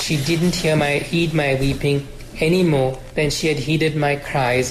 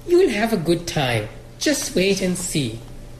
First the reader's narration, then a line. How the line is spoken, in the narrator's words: Amma said cheerfully